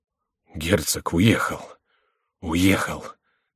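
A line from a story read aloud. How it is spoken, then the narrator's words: Quiet, breathless, trembling. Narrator (Russian): тихо проговорил Монсоро задыхающимся голосом, задрожав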